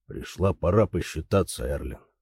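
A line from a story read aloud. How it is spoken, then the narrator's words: Cold. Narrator (Russian): сказал он холодно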